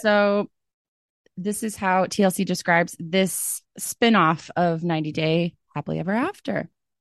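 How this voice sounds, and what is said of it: Raspy voice. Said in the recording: “my voice is very raspy ... because I ... was out drinking all day yesterday”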